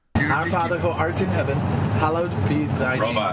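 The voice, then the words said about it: Robot voice. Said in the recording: “a funny voice? ... He's doing a robot voice. ... It's a funny voice.”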